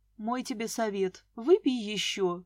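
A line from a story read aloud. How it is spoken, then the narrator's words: Tender. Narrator (Russian): ласково сказал Дима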